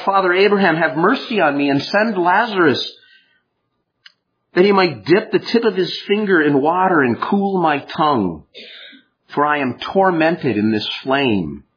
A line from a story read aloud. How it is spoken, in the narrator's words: the rich man cried out